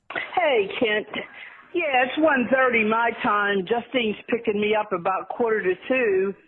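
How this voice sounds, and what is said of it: Pittsburgh accent. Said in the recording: “She's a Pittsburgher ... the Pittsburgh accent ... I just want you to hear how that sounds ... when I hear someone talking like this.”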